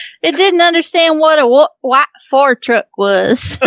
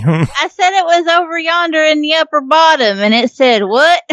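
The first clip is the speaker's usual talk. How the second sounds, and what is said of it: Put-on redneck accent. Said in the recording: “redneck accent”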